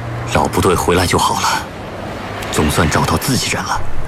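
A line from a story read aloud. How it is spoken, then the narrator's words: Relieved murmur. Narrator (Chinese): 方引峰不禁松了一口气，喃喃地说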